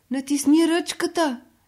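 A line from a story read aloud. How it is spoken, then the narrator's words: Old woman shouting. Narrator (Bulgarian): викнала бабата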